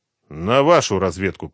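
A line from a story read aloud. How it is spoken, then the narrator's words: Grumbling. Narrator (Russian): проворчал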